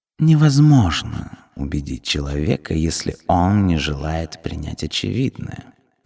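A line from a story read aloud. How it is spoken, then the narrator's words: Calm purr. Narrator (Russian): невозмутимо промурлыкала Сармис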